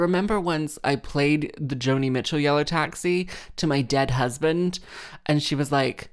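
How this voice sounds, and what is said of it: Usual voice. Nothing is said of it.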